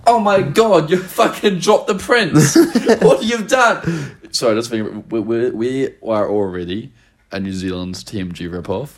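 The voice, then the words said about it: Noticeable New Zealand accent. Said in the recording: “Kiwi accent ... I've got a fairly... it's not intense, but like it's very... I've been told it's very noticeable.”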